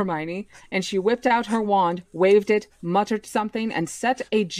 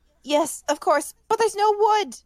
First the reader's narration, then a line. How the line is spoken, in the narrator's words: Hermione cried, wringing her hands